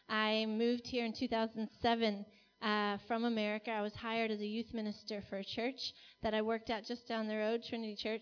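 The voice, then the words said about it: American accent. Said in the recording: “You can probably hear my American accent.”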